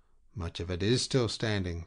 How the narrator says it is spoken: Peyrol assured him calmly

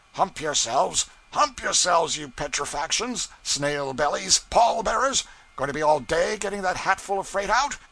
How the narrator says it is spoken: he would shout

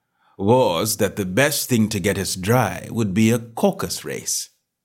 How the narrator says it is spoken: said the Dodo, in an offended tone

